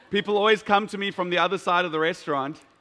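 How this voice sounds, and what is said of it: Very loud speaking voice. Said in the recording (German): “voice oder? is just that loud. Wow. ... meine Stimme ist echt so laut”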